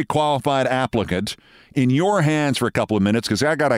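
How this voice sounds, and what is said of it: Usual voice. Nothing is said of it.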